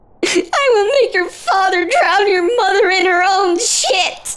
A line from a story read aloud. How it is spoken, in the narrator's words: Bug Baby cries and squirms, struggling to escape